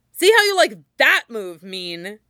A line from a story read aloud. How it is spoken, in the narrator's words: Someone sneered